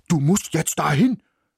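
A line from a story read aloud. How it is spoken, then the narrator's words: Barked command. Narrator (German): bellte er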